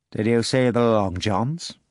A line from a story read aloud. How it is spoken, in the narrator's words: the pirate asked coldly